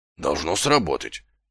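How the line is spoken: Muttered. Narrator (Russian): пробормотал Колон

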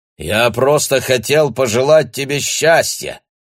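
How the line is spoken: Loud announcement. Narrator (Russian): громко объявил Бруно

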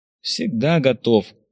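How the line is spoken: Sighed. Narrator (Russian): вздохнул Виктор

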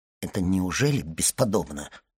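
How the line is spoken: Muttered. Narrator (Russian): пробормотал Данглар

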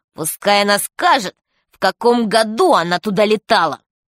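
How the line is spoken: Strange spiteful voice. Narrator (Russian): Он как-то странно, вредным голосом произнес

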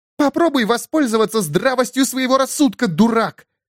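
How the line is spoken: Barking shout. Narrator (Russian): рявкнула Элас

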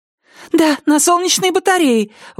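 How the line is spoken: Exclaimed. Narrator (Russian): воскликнула Китти

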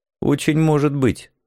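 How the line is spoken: Dry curt remark. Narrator (Russian): сухо бросил я

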